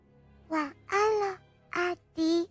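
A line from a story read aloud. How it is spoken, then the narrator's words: Soft, gentle. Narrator (Chinese): 小朱莉也轻声地说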